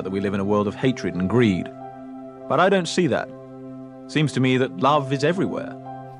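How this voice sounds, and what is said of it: Put-on British accent impersonation. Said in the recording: “Excuse my terrible Hugh Grant ... Shitty impersonation ... that was actually a, a, really good British, at least by my standards. It, it, was a great British accent.”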